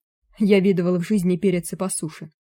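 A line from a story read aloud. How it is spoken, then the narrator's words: Snorted. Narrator (Russian): фыркнул Януш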